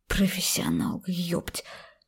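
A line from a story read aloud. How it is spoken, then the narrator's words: Upset whisper. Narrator (Russian): Шепотом расстраивался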